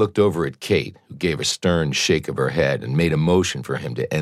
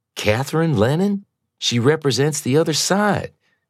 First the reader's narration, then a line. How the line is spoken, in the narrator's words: exclaimed